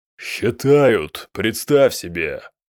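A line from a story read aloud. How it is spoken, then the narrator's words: Growled. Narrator (Russian): прорычал Хаштубал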